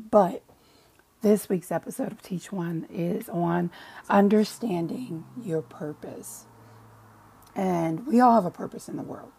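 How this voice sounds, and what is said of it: Scratchy voice. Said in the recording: “forgive my voice ... I am trying to get over a sinus infection right now. So a little bit scratchy there.”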